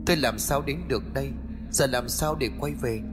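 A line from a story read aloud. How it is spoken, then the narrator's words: Muttering. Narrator (Vietnamese): cậu lẩm bẩm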